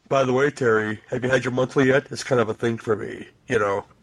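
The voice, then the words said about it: Deep creepy voice of character Doc. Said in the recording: “It has a really deep voice, kind of rapey”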